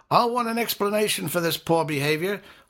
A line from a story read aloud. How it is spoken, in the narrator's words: I yelled after them